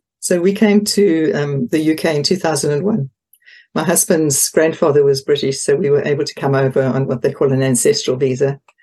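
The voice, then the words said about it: Non-English foreign accent. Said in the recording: “I can hear an accent in there that doesn't sound to me like English.”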